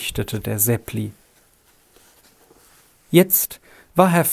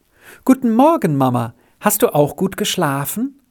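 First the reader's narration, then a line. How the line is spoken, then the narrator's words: Cheerful call. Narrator (German): rief Rita ganz fröhlich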